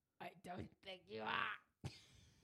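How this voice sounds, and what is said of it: Strained Batman-style character voice. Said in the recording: “You sound mildly constipated. ... You also kind of sound like you're trying to do a Batman voice.”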